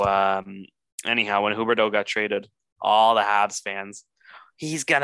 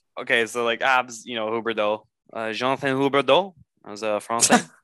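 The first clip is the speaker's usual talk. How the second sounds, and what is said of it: Good put-on French accent. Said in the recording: “That's a good French accent, man.”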